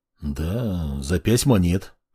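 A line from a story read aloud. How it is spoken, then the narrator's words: Displeased mutter. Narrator (Russian): Как-то недовольно пробормотал Кай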